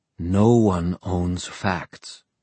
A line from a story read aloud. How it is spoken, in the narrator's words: Christina said quietly